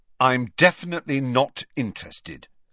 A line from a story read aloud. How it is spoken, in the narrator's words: said Harry firmly